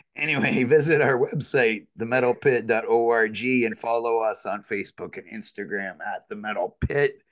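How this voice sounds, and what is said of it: Slightly hoarse, froggy voice. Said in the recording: “pardon my voice as I was sick a couple days ago, so it's a little froggy at times, maybe”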